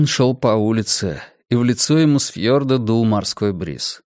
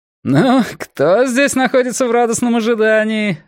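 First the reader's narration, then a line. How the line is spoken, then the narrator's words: Laughing. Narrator (Russian): рассмеялся один из них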